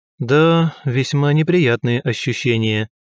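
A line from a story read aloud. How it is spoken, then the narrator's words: Echoing, sighing. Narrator (Russian): эхом повторил я за Криббе и, вздохнув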